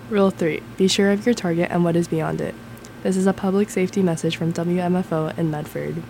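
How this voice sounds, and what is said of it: Polished radio announcer voice. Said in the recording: “you have a radio voice.”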